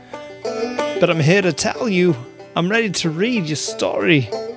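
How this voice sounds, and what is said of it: Crackly, ragged old man's voice. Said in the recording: “my voice may be a little crackly and ragged as an old tree, but I'm getting a little old”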